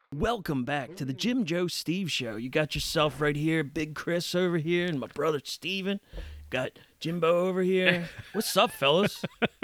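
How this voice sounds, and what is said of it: Put-on radio announcer voice. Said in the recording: “I don't know why I'm talking like this. It's not how I talk. ... It's your radio voice. ... It's my radio voice.”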